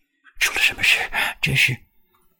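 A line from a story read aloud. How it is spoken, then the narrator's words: Breathless. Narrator (Chinese): 春云在背后喘息着说道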